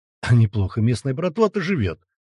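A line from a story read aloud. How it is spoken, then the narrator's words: Impressed exclamation. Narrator (Russian): воскликнул грач, увидав стоящие машины братков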